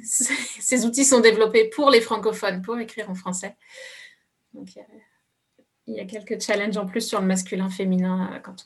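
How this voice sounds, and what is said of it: Foreign accent in French, English-sounding. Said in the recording (French): “Je vais garder mon accent ... souvent, ils pensent que je suis anglaise ... je développe un accent en anglais quand je parle en français”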